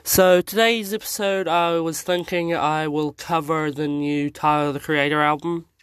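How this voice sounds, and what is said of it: Sick-sounding, rough voice. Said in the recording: “my voice sounds a little bit bad today, I am sick”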